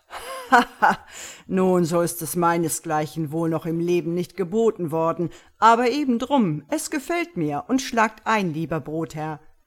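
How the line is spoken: Charcoal burner laughing heartily. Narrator (German): Der Köhler lachte herzlich und sprach

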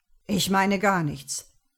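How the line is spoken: Unusually sharp. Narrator (German): sagte er ungewohnt scharf

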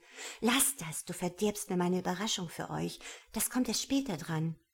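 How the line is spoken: Hissing. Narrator (German): Sie … zischte

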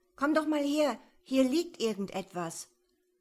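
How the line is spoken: Calling back. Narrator (German): rief Michi zurück

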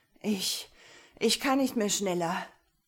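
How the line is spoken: Panting. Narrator (German): keuchte Heinrich

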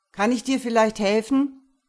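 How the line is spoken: Calling after someone. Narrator (German): rief ihr hinterher

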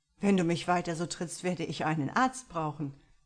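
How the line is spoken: Laughing. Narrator (German): lachte

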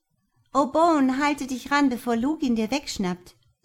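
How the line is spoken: Called out. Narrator (German): rief Monique

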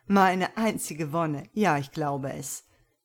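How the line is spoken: Lover replying, laughing. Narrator (German): Der Liebhaber erwiderte lachend

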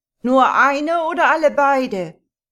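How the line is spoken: Calling out. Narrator (German): ruft er dem Herrn zu

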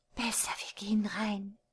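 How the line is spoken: Whispered. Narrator (German): flüsterte sie

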